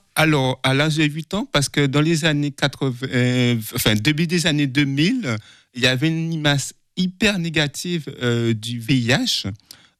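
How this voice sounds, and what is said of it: Slight Guadeloupean French accent. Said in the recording (French): “Je suis né en Guadeloupe. ... ça s'entend un petit peu. ... l'accent.”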